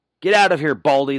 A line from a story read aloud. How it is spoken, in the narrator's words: shouted